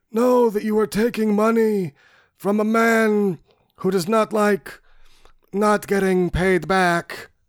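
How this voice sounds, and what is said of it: Imitates another person's voice. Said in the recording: “I do that voice all the time ... you're just doing Brando. It's just shitty Brando.”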